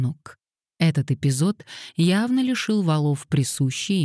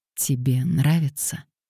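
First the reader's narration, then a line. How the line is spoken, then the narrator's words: Whisper. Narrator (Russian): прошептал Мэтью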